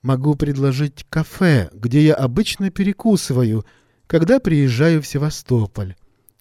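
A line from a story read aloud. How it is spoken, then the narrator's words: Plain. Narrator (Russian): ответила незнакомка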